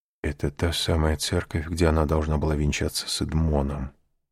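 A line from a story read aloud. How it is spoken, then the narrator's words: Whispered. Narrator (Russian): прошептал аббат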